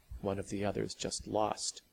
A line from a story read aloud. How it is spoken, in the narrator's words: Sally finished whispering